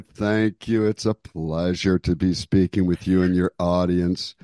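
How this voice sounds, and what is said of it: Polished radio announcer voice. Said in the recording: “Listen to this radio voice.”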